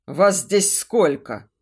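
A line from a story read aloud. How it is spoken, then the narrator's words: Growl. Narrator (Russian): рыкнул тот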